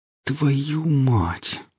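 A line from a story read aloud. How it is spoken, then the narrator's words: Horrified groan. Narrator (Russian): простонал Гриф от накатившего ужаса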